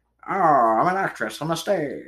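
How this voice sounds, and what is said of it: Old-fashioned vaudevillian stage accent. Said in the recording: “Back in, like, the 1800s, early 1900s, that's how you talk ... with a vaudevillian-esque noir accent”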